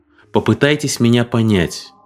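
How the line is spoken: Calm. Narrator (Russian): сказал Нидер спокойно

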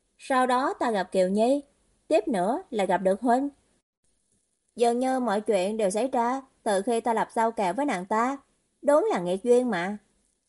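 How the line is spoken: Smiling. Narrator (Vietnamese): Hồ Duyệt mỉm cười, nói

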